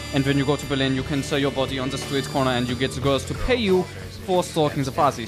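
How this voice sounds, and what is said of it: Put-on German accent character voice. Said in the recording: “this German accent, you know, this voice of Klaus”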